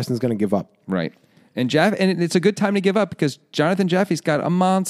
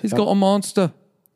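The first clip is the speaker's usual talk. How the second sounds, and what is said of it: Put-on British accent. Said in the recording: “Which accent is that? ... I think that's British. ... I'm sure British people are very happy to hear you do a British accent.”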